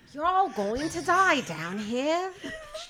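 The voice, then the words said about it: Unconvincing put-on Cockney accent. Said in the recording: “You're like Dick Van Dyke in Mary Poppins in the sense that you went to Australia to learn how to do a Cockney accent ... you sound like you just watched Oliver Twist”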